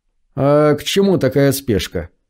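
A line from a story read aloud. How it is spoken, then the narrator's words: Sighing again. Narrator (Russian): Англичанин снова вздохнул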